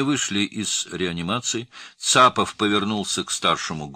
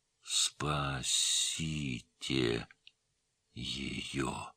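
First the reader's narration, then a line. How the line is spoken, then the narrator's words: Strained whisper. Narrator (Russian): прошептал, собрав все свои силы, Исмаил Махмудбеков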